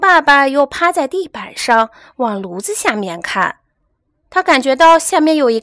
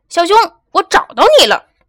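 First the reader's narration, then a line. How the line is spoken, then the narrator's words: Loud shout. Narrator (Chinese): 熊爸爸 大声喊着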